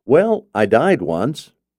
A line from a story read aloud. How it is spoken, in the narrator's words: he laughs